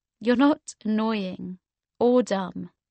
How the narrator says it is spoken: I said

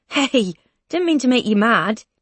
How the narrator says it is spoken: he says, laughing now

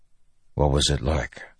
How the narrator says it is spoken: Dalinar asked softly

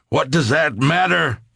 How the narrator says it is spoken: I yelled

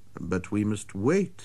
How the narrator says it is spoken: I said

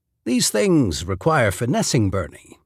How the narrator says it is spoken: he said, speaking smoothly again

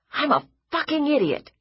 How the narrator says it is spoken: he said, furiously

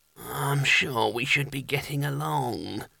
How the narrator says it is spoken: he muttered without much conviction

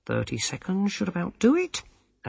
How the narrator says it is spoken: said brightly

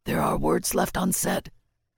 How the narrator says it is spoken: Hoarsely told

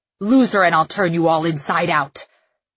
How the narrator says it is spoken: he snarls over his shoulder

